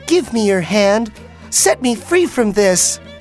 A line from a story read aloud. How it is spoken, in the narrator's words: pleaded the girl